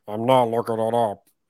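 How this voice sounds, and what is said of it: Imitates another person's voice. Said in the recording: “That's a pretty good impression of this one.”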